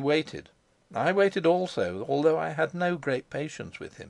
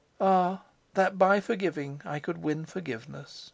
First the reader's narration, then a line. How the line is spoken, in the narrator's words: saying sadly